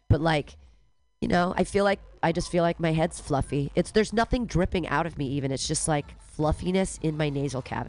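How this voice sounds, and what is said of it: Congested, stuffy-nosed voice. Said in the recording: “you can hear it in my voice. I've got a head cold”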